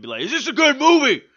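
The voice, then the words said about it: Imitates another person's voice, poorly. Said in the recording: “my horrible DMX impersonation”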